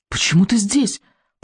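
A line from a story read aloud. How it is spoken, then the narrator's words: Terrified whisper. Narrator (Russian): прошептал Икинг, белый от ужаса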